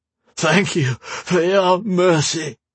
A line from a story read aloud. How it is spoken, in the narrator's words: Thomas sobbed